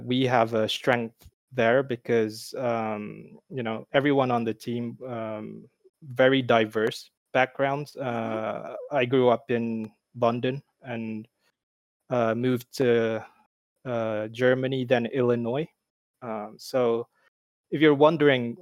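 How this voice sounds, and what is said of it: Mixed American Midwestern British accent. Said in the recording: “my accent is hard to put a finger on it. That's because it's American Midwestern British”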